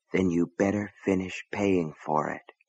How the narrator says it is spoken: a voice deep in his mind whispered

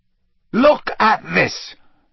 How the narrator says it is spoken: Harry snarled

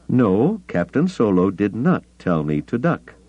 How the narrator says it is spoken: told stiffly

